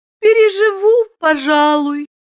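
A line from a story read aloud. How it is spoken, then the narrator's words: Sleepy. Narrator (Russian): сонно молвила Айлин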